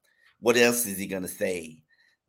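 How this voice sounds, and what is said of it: Imitates another person's voice. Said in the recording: “my Poop imitation”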